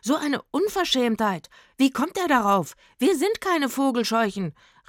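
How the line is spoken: Called out. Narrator (German): rief er dem Mann zu

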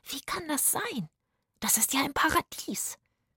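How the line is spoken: Whispered. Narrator (German): flüsterte Zora

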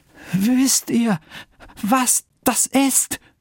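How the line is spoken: Trembling voice. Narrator (German): fragte der Mann mit bebender Stimme

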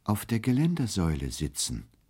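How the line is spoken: Gentle reply. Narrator (German): erwiderte er sanft

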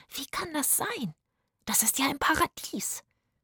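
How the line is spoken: Whispered. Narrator (German): flüsterte Zora

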